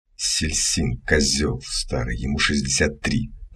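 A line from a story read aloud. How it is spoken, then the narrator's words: Hiss from behind. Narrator (Russian): прошипели сзади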